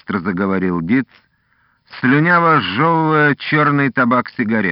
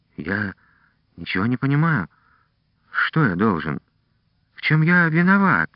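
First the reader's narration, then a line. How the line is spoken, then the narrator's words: Quiet trembling question. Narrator (Russian): тихо спросил Трушницкий, ощущая быструю дрожь во всем теле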